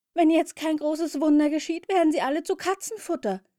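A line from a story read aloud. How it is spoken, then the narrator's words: Horrified shout, small frog. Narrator (German): rief der kleine Frosch entsetzt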